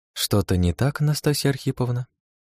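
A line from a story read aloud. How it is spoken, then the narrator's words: Innocent-toned question. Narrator (Russian): Невинным тоном поинтересовалась она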